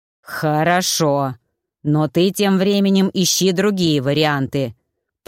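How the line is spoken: Growling. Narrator (Russian): прорычал Маффин

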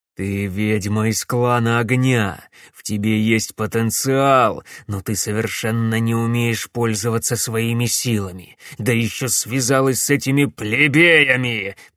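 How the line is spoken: Growled. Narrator (Russian): прорычал барон Клайд

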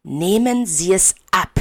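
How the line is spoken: Low menacing hiss. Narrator (German): zischt und senkt seine Stimme in den bedrohlichsten, bösartigsten Ton, den er aufbringen kann

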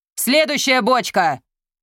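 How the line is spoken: Shouting. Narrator (Russian): крикнул Мерик

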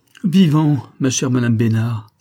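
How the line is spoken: Exclaimed. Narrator (French): s'écria-t-elle

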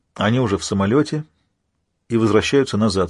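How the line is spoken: Plain. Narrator (Russian): сказал Кляйнман

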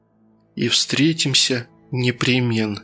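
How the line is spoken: Whisper. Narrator (Russian): прошептала Татьяна Николаевна

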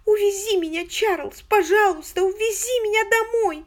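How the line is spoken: Loud sobbing wail. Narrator (Russian): Она еще громче зарыдала с воплем

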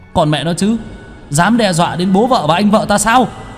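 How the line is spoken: Roaring. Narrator (Vietnamese): Đạo sĩ nội ứng gào thét

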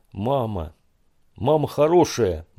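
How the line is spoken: Sudden shout. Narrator (Russian): вдруг крикнул Алик

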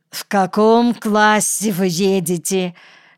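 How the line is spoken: Suppressing laughter. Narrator (Russian): спросил я, едва сдерживаясь от хохота

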